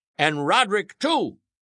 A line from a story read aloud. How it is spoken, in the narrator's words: cried the boys